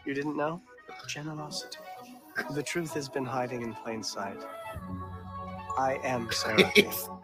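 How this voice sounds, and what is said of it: Whispered delivery. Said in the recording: “I knew he's gonna whisper it.”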